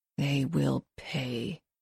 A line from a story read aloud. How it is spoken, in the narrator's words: she mutters